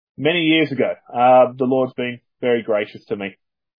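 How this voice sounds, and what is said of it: Australian accent. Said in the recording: “As people can probably tell from my accent, I'm from down under”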